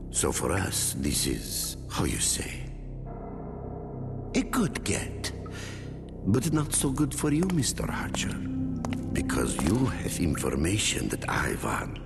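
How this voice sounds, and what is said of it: Inconsistent lame fake accent. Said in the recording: “would you pick an accent and stick with it? ... his lame accent”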